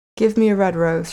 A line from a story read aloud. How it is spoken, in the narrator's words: she cried